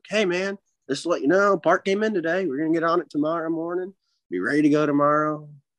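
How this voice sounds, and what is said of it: Put-on Southern American accent. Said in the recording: “you're giving him a Southern accent.”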